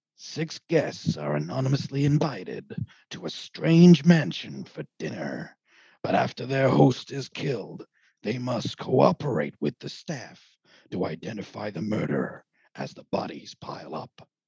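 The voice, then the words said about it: Dramatic movie trailer narrator voice. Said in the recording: “your best sort of murder mystery trailer voice ... the classic This Summer? That guy?”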